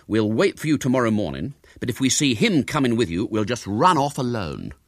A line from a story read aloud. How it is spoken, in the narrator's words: they said sternly